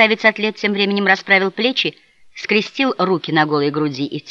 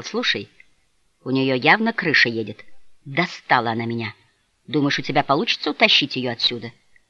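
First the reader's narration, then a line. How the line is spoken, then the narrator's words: Confidential tone. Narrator (Russian): поинтересовался парень, доверительным тоном сказал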